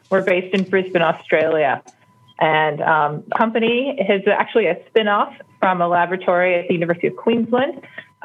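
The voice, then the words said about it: American accent. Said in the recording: “your Australian accent is distinctly American”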